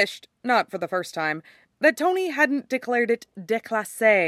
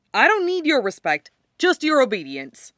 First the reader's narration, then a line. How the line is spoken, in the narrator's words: Clint snapped